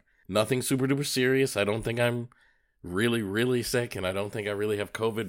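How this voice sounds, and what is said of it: Nasal, congested, under-the-weather voice. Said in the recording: “you can probably hear it in my voice ... I'm a little bit under the weather ... enough of a mucus thing going on ... I'm a little bit struggling with my voice, and I've got a cough ... kind of a nasally, I'm not super duper well version of me”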